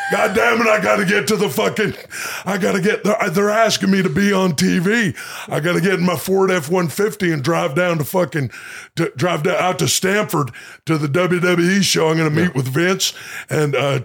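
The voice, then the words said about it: Impression of Stone Cold Steve Austin. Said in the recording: “Please do short impersonations ... Stone Cold Steve Austin”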